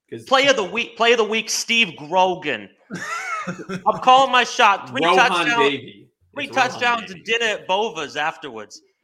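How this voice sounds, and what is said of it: Put-on Boston accent. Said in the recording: “Is that like a Departed accent there?”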